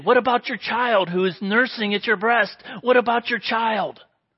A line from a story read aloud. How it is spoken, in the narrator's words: he pleaded